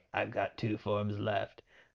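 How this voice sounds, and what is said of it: Terrible impression of cartoon villain. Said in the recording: “I'm doing a terrible impression of Frieza”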